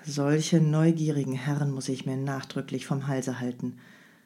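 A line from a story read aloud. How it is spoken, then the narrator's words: Grim mutter. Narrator (German): murmelte der Kurier grimmig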